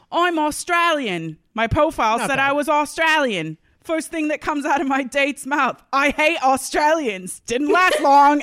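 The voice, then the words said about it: Put-on Australian accent. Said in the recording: “can you try and do an Australian accent for this?”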